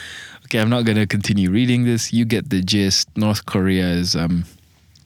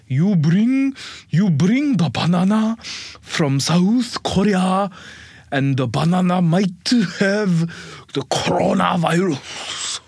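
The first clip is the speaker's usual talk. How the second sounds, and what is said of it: Put-on Korean accent. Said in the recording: “my Korean accent is not bad, not bad”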